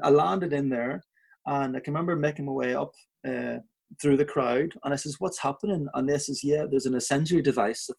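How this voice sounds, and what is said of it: Belfast accent. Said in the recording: “there I was with this Belfast accent”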